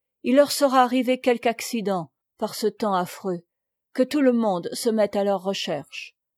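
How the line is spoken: Shaken broken voice. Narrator (French): de Fourville chancela, et d'une voix entrecoupée

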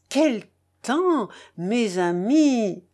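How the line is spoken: Exclamation. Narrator (French): s'exclama M

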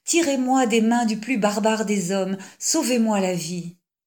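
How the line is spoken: Sobbing cry. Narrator (French): s'écria-t-elle à Zadig avec des sanglots

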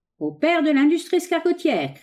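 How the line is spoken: Slightly hoarse shout. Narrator (French): cria le prestigitateur d'une voix légèrement éraillée

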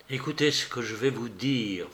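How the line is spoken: Low voice. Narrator (French): fit-il à voix basse

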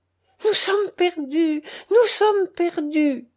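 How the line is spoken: Exclaiming woman. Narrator (French): s'écria-t-elle

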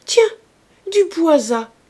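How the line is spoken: Exclaimed. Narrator (French): s'écria Rougon

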